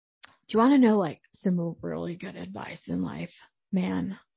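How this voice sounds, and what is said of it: Bad impression of Tommy. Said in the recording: “I know this is a really bad impression.”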